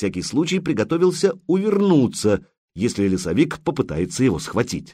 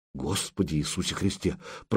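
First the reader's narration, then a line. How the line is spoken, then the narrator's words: Muttering. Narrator (Russian): пробормотал Илья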